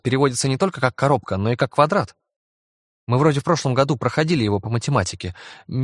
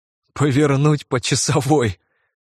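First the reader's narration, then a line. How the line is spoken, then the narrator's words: Laughing. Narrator (Russian): Я засмеялся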